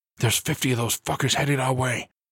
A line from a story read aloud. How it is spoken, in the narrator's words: he hissed